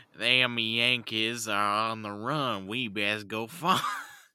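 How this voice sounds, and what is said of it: Exaggerated American Southern accent. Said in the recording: “the most American accent ever ... the Southern accent in the U.S.”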